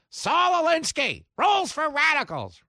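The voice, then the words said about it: Impression of Mark Levin. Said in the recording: “my Levin impression,”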